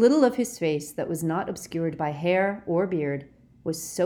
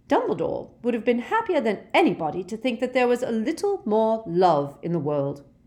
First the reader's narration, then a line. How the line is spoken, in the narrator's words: said Professor McGonagall curtly